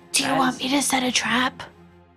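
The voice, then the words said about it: Loud stage whisper. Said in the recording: “My whisper that's not really a whisper.”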